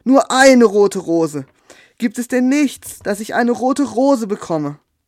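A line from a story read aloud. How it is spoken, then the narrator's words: Nightingale calling out. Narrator (German): rief die Nachtigall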